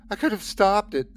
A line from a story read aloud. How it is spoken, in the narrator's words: I sobbed